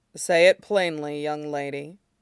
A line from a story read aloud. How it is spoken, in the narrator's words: Shidan said gruffly